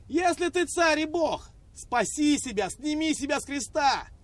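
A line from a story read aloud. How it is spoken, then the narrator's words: Raging crowd shouting. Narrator (Russian): Толпа внизу бесновалась и кричала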